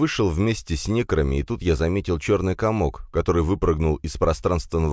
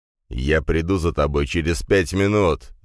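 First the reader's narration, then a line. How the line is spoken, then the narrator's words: Growl. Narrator (Russian): зарычал Дракен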